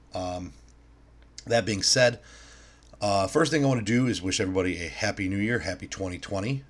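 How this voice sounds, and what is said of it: Slightly strained, throaty voice. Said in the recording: “clearing my throat a few times or my voice sounds a little weird”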